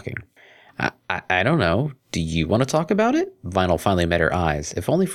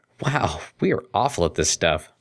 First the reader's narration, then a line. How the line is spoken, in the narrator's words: chuckled Vinyl